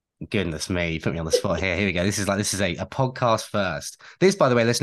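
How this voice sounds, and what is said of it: Usual voice. Nothing is said of it.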